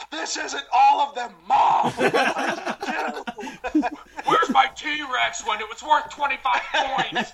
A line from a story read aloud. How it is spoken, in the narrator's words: screaming